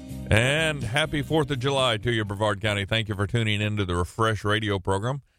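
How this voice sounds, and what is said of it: Slightly deep, bassy morning voice. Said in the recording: “My voice sounds a little bassy”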